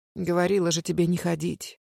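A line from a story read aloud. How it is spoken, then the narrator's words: Muttering in Japanese. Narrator (Russian): пробормотала мама по-японски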